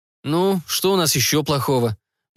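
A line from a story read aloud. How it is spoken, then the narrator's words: Gloomy inquiry. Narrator (Russian): мрачно осведомился усевшийся рядом майор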